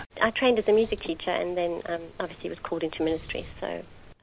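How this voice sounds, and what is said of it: South African accent. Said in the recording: “I grew up in South Africa, in Johannesburg... you can hear from my accent, I'm not a local girl.”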